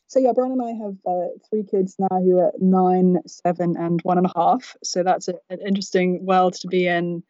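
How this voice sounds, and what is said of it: British English accent. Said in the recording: “I come from the UK originally, as you may discern from my unusual accent”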